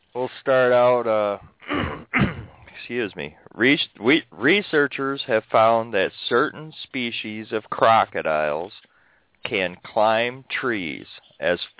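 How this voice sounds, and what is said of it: Sounds sick, under the weather. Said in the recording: “I'm a little under the weather as well. ... I can hear it in your voice.”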